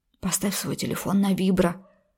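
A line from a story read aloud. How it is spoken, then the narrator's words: Whispering. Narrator (Russian): зашептал Андрей Анатольевич парню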